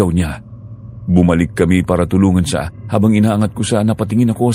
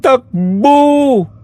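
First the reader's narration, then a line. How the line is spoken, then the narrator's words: Shouting. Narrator (Tagalog): Sigaw ko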